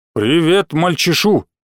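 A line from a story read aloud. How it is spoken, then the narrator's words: Solemn deep bass. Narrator (Russian): торжественным басом добавил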